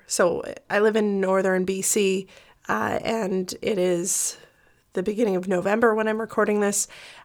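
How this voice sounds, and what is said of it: Slightly congested voice from a cold. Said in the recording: “my voice was quite affected and I think it's still there a little bit, but my cold is getting quite a bit better”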